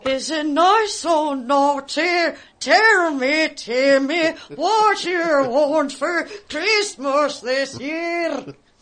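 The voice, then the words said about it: Santa Claus character voice. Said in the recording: “This is my impression of Santa Claus ... Eddie Vedder Santa Claus”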